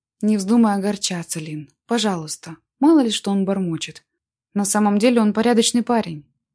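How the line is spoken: Plain. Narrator (Russian): сказал напоследок

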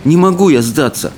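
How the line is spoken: Dejected refusal. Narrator (Russian): уныло отказался Икинг

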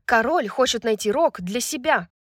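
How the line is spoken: Sharp objection. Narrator (Russian): резко возразила Брайс

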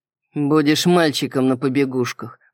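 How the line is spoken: Grim smirking young man. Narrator (Russian): мрачно ухмыльнулся парень в кожаном костюме

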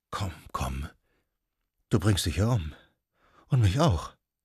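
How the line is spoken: Murmuring. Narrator (German): Sie murmelte

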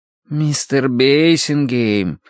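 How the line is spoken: Drawling. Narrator (Russian): протянул сторож

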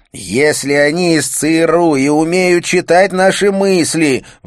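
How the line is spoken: Howl through gritted teeth. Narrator (Russian): взвыл он с зубовным скрежетом

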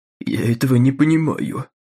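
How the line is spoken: Bitter trembling old man. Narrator (Russian): с горечью говорил дрожащим голосом какой-то старик

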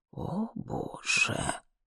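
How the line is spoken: Muttered. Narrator (Russian): пробормотала она

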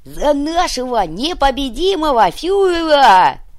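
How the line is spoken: Commander yelling. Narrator (Russian): заорал уйбуй

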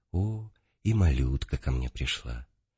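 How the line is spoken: Old man, gentle. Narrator (Russian): Старец ласково обратился ко мне и сказал

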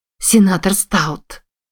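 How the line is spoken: Exclaimed. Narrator (Russian): воскликнула Вирджилия

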